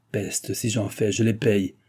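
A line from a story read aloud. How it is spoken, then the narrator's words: Growled. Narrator (French): gronda le vicomte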